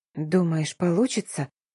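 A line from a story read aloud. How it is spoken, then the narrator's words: Whisper. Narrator (Russian): прошептала Дарина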